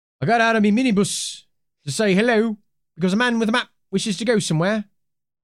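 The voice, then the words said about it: Failed Irish accent, sounds British. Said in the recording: “I know he's Irish... I couldn't do it. It's just like a crappy British accent just came out. I shouldn't have even tried it.”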